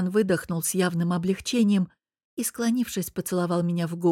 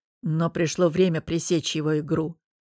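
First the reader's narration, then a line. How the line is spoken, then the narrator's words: Grim. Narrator (Russian): мрачно добавив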